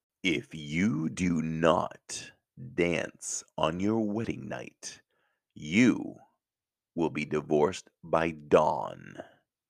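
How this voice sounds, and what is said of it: Evil Disney villain voice. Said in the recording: “I'm going to do this in a Disney voice, okay? Evil Disney voice.”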